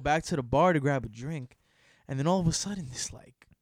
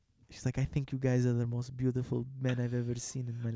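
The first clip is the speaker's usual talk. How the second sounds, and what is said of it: Put-on foreign accent. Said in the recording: “Why does she have a foreign accent?”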